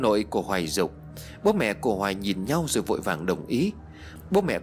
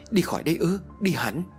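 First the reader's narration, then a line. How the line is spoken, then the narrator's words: Stammering question. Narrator (Vietnamese): Bố của Hoài lắp bắp hỏi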